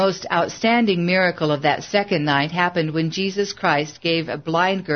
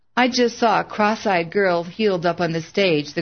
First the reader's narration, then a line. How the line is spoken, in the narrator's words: the girl sobbed